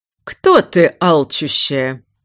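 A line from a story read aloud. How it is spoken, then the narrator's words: Beautiful resonant ritual voice. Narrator (Russian): Красивым звучным голосом задала Альциона ритуальный вопрос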